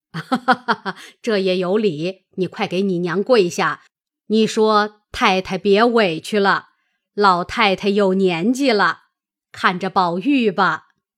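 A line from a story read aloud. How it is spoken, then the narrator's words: Laughing. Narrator (Chinese): 贾母笑道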